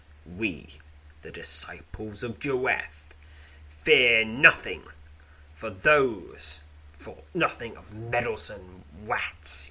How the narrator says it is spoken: he sneers

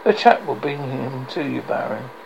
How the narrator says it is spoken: Peter muttered

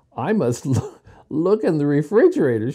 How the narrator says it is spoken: she said with a laugh

